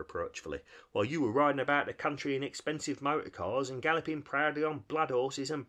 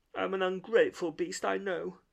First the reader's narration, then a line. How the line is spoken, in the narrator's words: sobbed Toad, shedding bitter tears